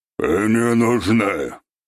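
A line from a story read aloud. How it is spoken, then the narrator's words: Gloomy statement, dwarf. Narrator (Russian): мрачно констатировал гном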